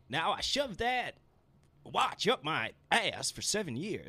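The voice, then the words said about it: Bad impression, sounds Southern. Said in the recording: “Why is it Southern?... Was like Foghorn Leghorn a little bit there... That was a terrible impression.”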